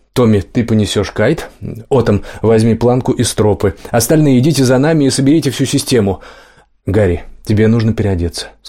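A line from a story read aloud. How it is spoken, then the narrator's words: Plain. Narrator (Russian): сказал он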